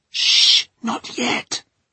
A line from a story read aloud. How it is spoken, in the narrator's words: hissed Mary